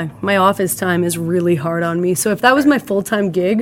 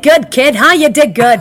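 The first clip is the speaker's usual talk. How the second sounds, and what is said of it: Put-on Brooklyn accent. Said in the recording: “Brooklyn accent”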